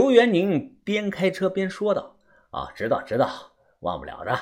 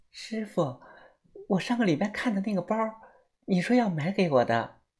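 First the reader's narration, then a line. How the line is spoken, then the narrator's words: Coy, sweet voice. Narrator (Chinese): 嫣儿声音娇滴滴的对着刘元宁说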